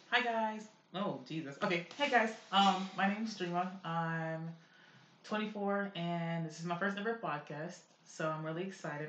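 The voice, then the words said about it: Raspy, strained voice. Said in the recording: “my voice is a little bit raggedy too, cause we was in there screaming”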